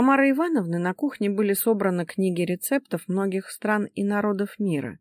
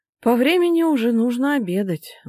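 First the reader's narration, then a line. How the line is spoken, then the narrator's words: Sighing. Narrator (Russian): вздохнула Ника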